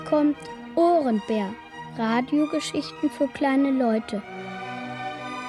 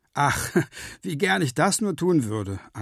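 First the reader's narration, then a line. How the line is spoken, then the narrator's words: Laughing reply. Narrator (German): antwortet Willi lachend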